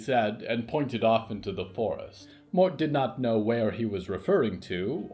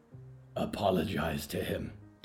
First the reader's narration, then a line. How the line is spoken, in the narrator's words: Diggory whispered